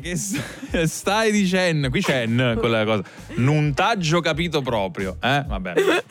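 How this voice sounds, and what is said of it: Attempted Neapolitan dialect. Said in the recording (Italian): “Se la sta cavando il nostro ... con il dialetto napoletano?”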